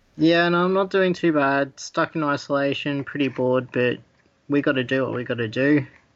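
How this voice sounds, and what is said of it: Australian accent. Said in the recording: “your accent tells me you're on the other side of the world from me... I'm from Australia”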